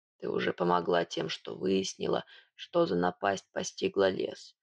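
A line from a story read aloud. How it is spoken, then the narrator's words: Hoarse. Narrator (Russian): хрипло произнес он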